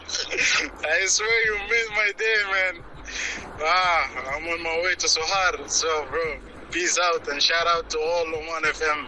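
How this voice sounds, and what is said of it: Imitates another person's voice. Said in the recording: “Very good impression”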